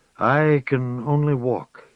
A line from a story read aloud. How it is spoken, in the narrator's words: he said